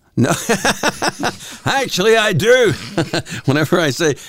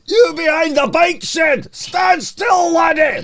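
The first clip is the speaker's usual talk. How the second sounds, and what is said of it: Thick Scottish accent impression. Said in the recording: “he did have the thick Scottish accent”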